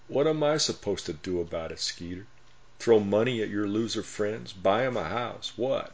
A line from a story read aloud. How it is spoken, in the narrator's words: Fred sarcastically replied